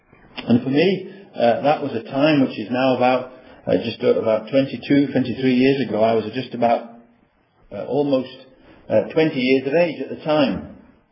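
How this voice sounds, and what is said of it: Lancashire English accent. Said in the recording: “as you can gather from my accent, I wasn't brought up in these parts. I was brought up in a village in Lancashire”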